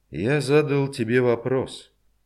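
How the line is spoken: Calm reminder. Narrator (Russian): спокойно напомнил Пономарев

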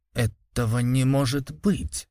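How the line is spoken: Frightened whisper, pale official. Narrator (Russian): прошептал бледнее, как мел чинуша

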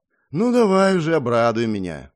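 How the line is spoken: Sighing, resigned. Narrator (Russian): вздохнув и не ожидая ничего хорошего, произнес я

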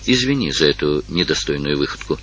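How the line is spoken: Tender. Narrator (Russian): сказал он нежно

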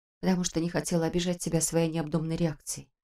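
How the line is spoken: Quiet. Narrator (Russian): тихо ответила она

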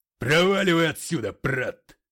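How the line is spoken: Roaring. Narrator (Russian): взревел он

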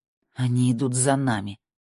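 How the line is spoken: Through gritted teeth. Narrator (Russian): процедила Тина сквозь зубы

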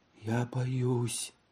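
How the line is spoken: Distracted mumble. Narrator (Russian): она не впопад пробормотала

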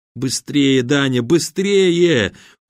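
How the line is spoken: Urgent pleading exclamation. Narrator (Russian): умоляюще воскликнул Серый, видя, как твари медленно, но неумолимо сжимают кольцо

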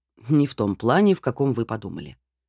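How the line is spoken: Wry snort. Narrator (Russian): хмыкнул профессор

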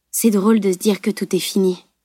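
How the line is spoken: Soft remark. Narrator (French): remarqua doucement Salim

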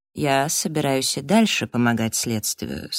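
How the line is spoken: Calm. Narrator (Russian): сказал он спокойно

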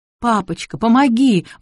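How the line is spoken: Daughter pleading. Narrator (Russian): взмолилась дочь

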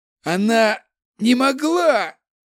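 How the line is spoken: Conflicted hoarse rasp. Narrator (Russian): прохрипел Дарган, испытывая крайне противоречивые чувства после рассказа Изао

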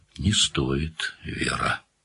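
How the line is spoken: Quiet. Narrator (Russian): сказал Данил тихо

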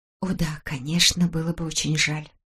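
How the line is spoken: Ironic, barely audible whisper. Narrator (Russian): прошептала Беатрис с иронией, но так тихо, что он не расслышал

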